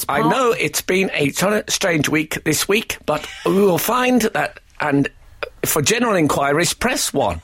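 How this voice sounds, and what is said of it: Automated answering-machine voice, Scottish-American. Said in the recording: “I'd describe his current accent as automatic answering machine ... It's slightly Scottish, slightly American. ... it did sound automated”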